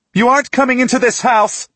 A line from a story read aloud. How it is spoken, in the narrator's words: She shouts